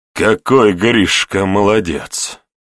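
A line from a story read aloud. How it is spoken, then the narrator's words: Tsar through clenched teeth. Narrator (Russian): процедил царь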